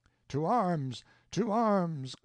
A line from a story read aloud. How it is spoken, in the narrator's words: cried Alfonso